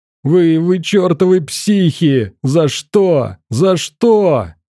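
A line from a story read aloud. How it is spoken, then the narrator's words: Yelling. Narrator (Russian): орал парень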